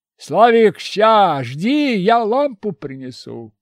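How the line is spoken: Shout while running. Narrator (Russian): крикнул, пробегая

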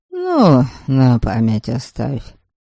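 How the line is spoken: Heavy-hearted grumble. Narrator (Russian): буркнул домогость, у которого было очень нехорошо на сердце

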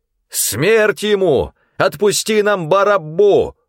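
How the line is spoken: Crowd shouting together. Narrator (Russian): все как один закричали

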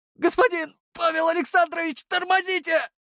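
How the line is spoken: Howling driver. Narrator (Russian): снова взвыл водитель

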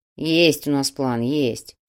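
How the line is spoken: Grumbled. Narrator (Russian): проворчал Тимоха

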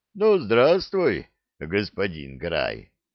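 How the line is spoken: Deep bass voice. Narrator (Russian): пробасил Бжигунь

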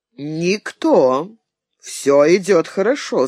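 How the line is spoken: Calm answer. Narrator (Russian): спокойно отвечал Болеслав

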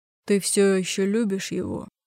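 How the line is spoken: Hoarse male question. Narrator (Russian): хрипло спросил мужчина

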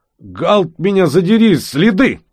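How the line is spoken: Sudden hoarse shout. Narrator (Russian): вдруг хрипло выкрикнул Бигман

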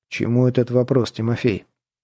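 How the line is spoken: Quiet question. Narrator (Russian): тихо спросил старший портупей юнкер Забелин

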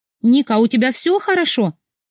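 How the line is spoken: Worried question. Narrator (Russian): встревоженный вопрос Тамары Ивановны

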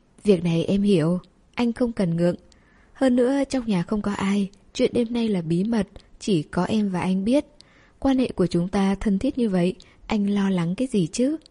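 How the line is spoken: Soft quiet speech. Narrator (Vietnamese): cô nhỏ giọng nói

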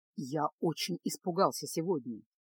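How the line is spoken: Quiet. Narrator (Russian): тихо произнес Кайл

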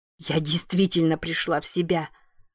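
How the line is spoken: Wheezed. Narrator (Russian): просипела Аманда

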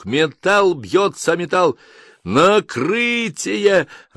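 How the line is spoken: Joyful report. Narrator (Russian): радостно сообщают

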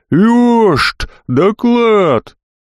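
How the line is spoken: Mumbled yell, mouth full. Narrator (Russian): запихал в рот кусман рыбы и заорал, шамкая

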